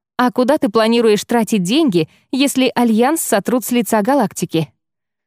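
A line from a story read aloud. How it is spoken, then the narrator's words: Kind laughing. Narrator (Russian): Кноринг рассмеялся, как-то удивительно по-доброму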